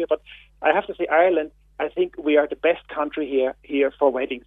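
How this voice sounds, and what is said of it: Austrian-accented English. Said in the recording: “You can hear my accent. I'm from Austria.”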